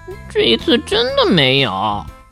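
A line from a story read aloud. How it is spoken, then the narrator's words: Quiet muttering. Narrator (Chinese): 他小声嘀咕着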